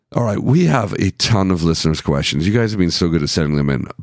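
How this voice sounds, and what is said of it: Tired, fading, worn-out voice. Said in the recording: “as you can probably hear from my voice, my energy is fading just as my voice is.”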